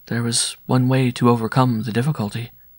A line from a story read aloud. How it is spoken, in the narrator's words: She answered in the same calm voice